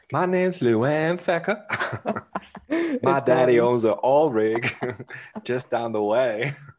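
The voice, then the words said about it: Southern belle accent. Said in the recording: “That sounds like an 1800s bell from like Mississippi ... that accent”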